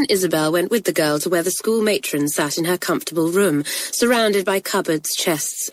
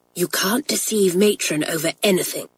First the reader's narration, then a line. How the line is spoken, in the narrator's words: whispered their guide